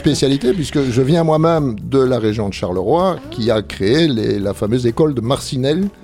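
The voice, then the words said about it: Belgian French accent. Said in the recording (French): “d'origine belge, hein, vous avez remarqué un petit peu l'accent”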